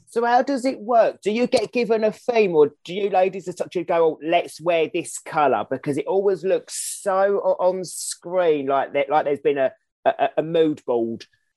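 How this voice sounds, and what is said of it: Noticeable foreign regional accent. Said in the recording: “Your accent is amazing. I love it.”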